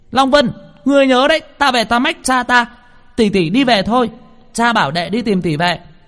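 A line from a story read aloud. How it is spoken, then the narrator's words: Shouting while running. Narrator (Vietnamese): vừa chạy vừa hét lên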